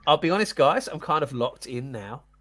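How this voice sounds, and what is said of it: Put-on Australian accent. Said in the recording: “Are you still doing your Australian accent? ... It's like one of the set of neighbours.”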